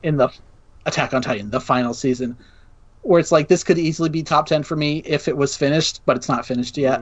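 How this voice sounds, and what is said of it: Strained, tired voice giving out. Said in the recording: “my voice is giving out”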